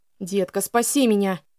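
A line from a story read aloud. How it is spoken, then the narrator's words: Pleading groan. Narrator (Russian): Умоляюще простонал он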